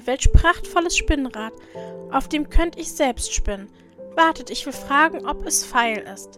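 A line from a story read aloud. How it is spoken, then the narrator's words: Called out. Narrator (German): rief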